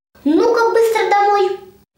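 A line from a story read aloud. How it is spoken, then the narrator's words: Shouting mother. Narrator (Russian): мама курицы и закричала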